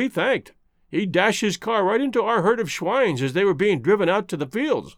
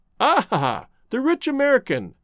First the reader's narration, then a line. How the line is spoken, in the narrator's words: chuckled the artist